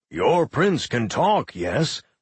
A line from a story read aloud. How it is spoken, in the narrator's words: Orso said gruffly